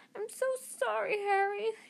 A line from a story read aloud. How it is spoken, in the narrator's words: she wailed